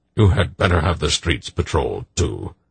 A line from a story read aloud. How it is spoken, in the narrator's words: Belgarath added grimly